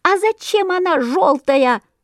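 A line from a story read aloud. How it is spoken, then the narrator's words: Squeaky chorus of sparrows. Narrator (Russian): запищали разом все воробьи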